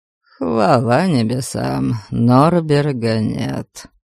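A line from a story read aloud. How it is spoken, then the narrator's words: Mutter. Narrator (Russian): Пробурчал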